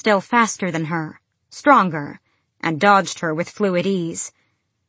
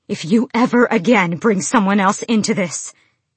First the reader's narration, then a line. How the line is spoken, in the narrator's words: she panted